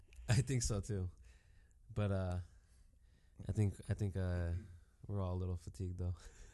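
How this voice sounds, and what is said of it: Sick, husky-sounding voice. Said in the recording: “I'm still recovering from from a little sickness too, so you'll probably hear it in my voice... that's why you sound so sexy”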